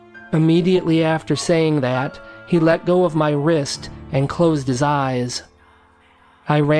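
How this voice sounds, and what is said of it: Usual voice. Nothing is said of it.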